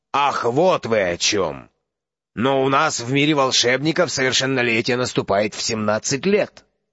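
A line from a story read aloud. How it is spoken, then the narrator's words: Muttered. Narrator (Russian): Дядя Вернон пробормотал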